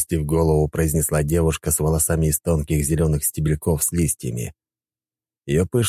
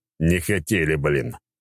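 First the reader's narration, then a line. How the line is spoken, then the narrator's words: Grumbling. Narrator (Russian): ворчал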